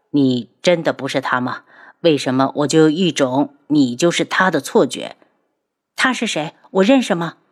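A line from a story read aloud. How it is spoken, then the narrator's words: Plain question. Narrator (Chinese): 他问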